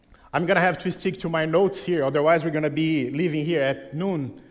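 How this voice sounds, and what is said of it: Unfamiliar non-local accent. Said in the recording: “You're going to hear this morning a different accent that maybe you are used to”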